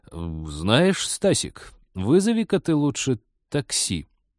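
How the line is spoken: Agonized, forced out. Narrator (Russian): наконец мученически выдавил он

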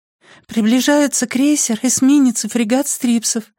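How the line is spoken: Lifeless flat voice. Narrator (Russian): объявила безжизненным голосом Пинслип

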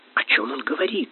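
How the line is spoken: Tragic whisper. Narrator (Russian): трагическим шепотом встретил его Корнелий Иванович

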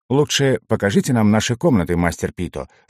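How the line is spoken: Plain. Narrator (Russian): сказал Эграсса

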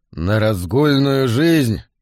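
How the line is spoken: Growled. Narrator (Russian): прорычал Мэн

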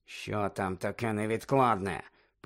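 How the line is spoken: Hissing. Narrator (Ukrainian): Снейп почав сичати до Каркарова

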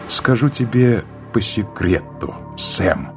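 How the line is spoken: Whisper. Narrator (Russian): прошептала она

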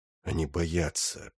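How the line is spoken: Muttering. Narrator (Russian): пробормотал Сайлос

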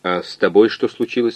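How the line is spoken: Plain. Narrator (Russian): спросил координатор

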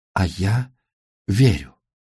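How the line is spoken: Shocked whisper. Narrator (Russian): Потрясенная, она прошептала

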